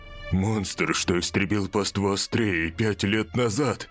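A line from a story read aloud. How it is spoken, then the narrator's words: Gloomy. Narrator (Russian): Уран продолжил мрачно говорить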